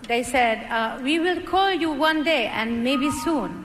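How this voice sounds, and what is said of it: French accent. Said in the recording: “It's quite a French accent.”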